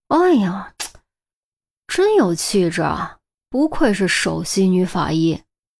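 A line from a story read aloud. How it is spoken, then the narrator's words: Admiring praise. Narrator (Chinese): 郑月啧啧赞叹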